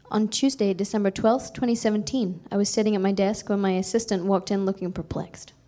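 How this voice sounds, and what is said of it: Non-local accent. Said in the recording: “I'm not from here, so my accent won't fit with the reading.”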